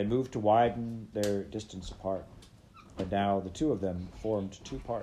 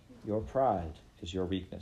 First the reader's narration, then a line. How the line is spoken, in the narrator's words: she said